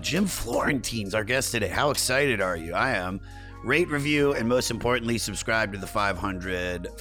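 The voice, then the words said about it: Hoarse, strained voice. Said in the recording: “my voice is trashed, man”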